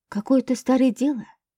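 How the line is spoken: Uncertain mutter. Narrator (Russian): неуверенно пробормотал Гришка

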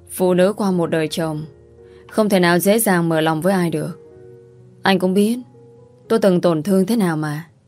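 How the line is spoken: Sighing woman's reply. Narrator (Vietnamese): Cô nhìn anh thở dài đáp

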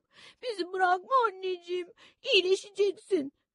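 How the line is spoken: Sobbing. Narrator (Turkish): dedim hıçkıra hıçkıra

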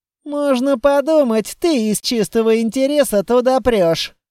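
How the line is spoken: Grumbling. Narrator (Russian): проворчал Литвин

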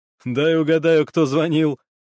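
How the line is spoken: Laughing. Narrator (Russian): рассмеялся Гуров

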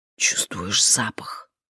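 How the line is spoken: Whispered question. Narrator (Russian): шепотом спросила она Келлера

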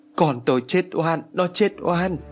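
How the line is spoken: Mother wailing. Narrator (Vietnamese): bà Thành vẫn một mực ôm con và gào thét

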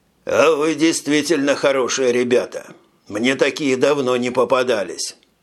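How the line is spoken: Sighing. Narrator (Russian): Он вздохнул и произнес

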